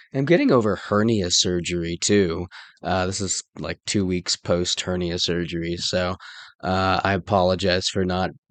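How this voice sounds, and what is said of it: Rough, unwell-sounding voice. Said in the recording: “Pardon my voice. I'm getting over a cold.”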